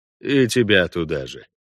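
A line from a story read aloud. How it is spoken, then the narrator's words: Grumbling. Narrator (Russian): проворчал Парт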